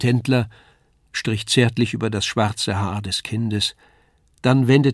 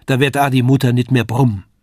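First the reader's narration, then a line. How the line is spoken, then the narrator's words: Called out. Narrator (German): rief das Lisei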